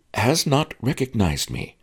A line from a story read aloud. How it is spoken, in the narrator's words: said Master Lee